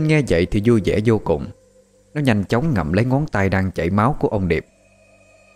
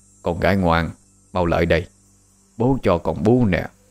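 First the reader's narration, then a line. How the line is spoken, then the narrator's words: Soft, quiet. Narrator (Vietnamese): ông nhỏ giọng nói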